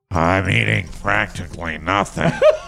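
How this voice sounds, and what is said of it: Harrison Ford impression. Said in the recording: “my Harrison Ford impression”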